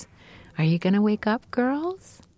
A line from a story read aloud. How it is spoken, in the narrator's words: she would … say, in that beautiful voice of my mom's